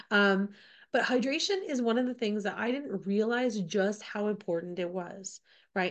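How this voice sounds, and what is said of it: Slightly off voice from a cold. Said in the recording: “I'm just getting over a bit of a cold, so my voice is a little off, and I have a bit of a cough”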